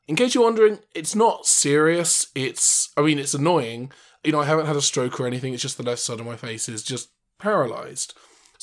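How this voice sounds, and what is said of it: Slightly cottony speech, weak plosives. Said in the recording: “my voice sounds a little bit different ... I'm going to sound a little weird for a while ... you might struggle with your plosives ... Sound a little cottony.”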